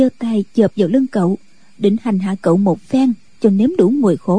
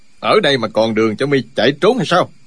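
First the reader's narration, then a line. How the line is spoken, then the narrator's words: Shouted. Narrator (Vietnamese): Chu Trường Linh quát lên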